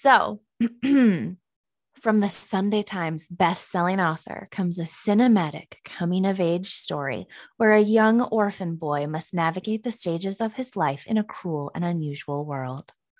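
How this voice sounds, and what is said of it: Announcer voice. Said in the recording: “my announcer voice on”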